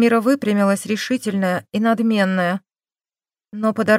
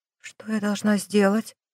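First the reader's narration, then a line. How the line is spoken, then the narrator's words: Barely audible question. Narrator (Russian): еле слышно спросила Мармира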